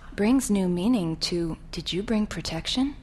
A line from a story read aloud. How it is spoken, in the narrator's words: she whispers